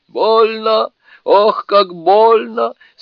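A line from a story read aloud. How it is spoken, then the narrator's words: Moaning spirit. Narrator (Russian): стонал дух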